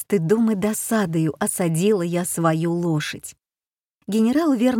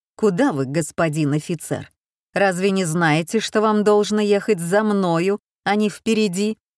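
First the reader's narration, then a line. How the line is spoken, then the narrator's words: Very stern question. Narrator (Russian): Коновницын спросил меня очень строго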